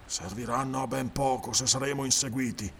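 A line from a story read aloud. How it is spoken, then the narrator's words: Grumbled. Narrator (Italian): brontolò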